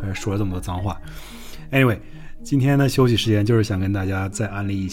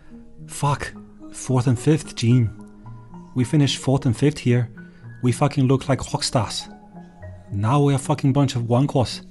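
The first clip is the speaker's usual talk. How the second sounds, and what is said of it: Clumsy impression of Gunter. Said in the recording (Chinese): “我们给你学一段吧 ... 这个 Gunter ... 我这个蹩脚的模仿秀”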